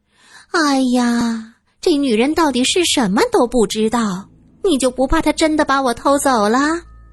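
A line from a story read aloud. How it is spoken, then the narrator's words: Helpless sigh. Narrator (Chinese): 小翠儿无奈的叹息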